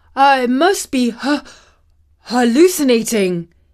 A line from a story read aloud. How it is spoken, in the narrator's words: panted